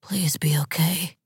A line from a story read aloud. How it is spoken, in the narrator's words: He whispered